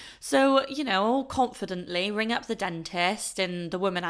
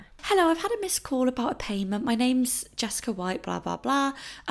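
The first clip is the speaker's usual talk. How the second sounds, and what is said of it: Polite put-on phone voice. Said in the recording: “you put on your phone voice, don't you?”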